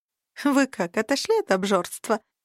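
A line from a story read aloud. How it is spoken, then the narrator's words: Snide question. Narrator (Russian): ехидно спросила Алька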